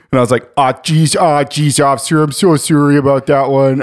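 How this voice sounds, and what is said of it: Put-on Canadian accent. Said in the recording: “The Canadian accent just came out. It's a funny accent.”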